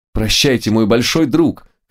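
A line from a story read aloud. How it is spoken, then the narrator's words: Shouted. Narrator (Russian): крикнул Лотарио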